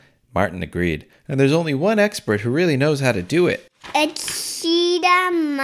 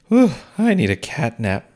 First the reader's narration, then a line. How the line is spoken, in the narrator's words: Martin said with a yawn